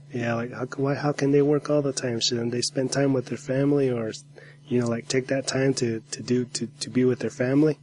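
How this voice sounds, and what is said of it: Slightly off voice, head cold. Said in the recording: “my voice is a little bit off ... like a head cold”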